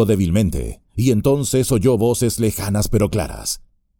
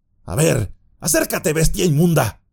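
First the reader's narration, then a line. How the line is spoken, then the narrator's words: Shouting. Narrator (Spanish): gritó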